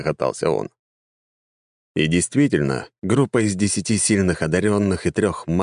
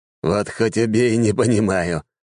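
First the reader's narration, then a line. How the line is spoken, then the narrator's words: Chuckling. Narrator (Russian): хохотнул Белмор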